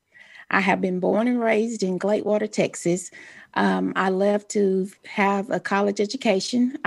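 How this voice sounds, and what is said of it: Texan accent. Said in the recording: “everyone can tell from my voice, I am a true Texan”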